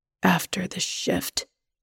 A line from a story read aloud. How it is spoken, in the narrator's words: he says in a low voice